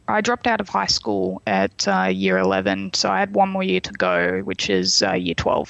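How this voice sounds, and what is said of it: Australian accent, slightly cockney twang. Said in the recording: “I sound more German than Australian or British sometimes ... you sound more British, not German at all ... the Aussie accent ... our accent is actually drunk British accent ... we sound a little bit cockney, but also there's a bit of a twang to our accent”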